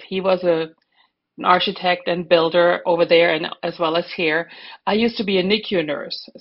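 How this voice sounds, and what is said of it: German accent. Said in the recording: “as you can probably hear from my accent ... I'm German.”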